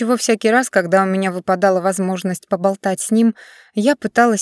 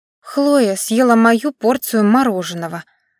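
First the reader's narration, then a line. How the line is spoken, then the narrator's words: Irritated whisper. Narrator (Russian): раздраженно прошептала Жас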